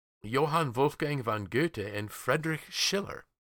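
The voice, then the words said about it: Names pronounced in a German accent. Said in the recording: “How's that for trying to use a little bit of German accent there, pronouncing it properly?”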